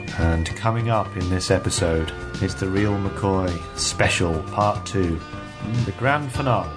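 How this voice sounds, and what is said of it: Serious announcer voice. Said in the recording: “serious voice”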